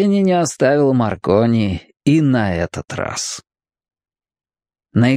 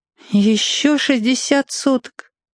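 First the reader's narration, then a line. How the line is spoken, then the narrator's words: Almost human sigh. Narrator (Russian): вздохнул Кап почти по-человечески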